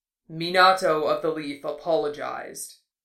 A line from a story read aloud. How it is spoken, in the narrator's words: he said at last, the rumble of his voice distant